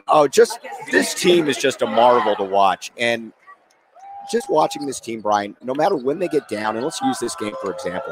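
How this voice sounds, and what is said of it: Hoarse, strained voice. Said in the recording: “from all my screaming, I'm losing my voice”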